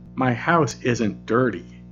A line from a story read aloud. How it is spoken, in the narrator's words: In a firm and even tone, Paul said